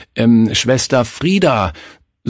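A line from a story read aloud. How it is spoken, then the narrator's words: Stammering. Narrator (German): stammelte er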